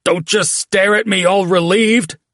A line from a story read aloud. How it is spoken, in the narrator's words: he said, voice choked by his craning neck